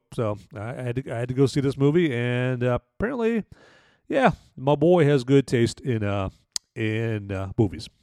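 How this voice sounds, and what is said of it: Strained, failing voice. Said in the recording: “my voice is taking a dump here ... time to listen to the old, you know, the old vocal abilities here”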